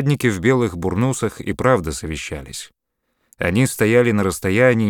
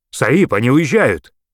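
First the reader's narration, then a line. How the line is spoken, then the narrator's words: Shouting. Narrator (Russian): Бахрам Али закричал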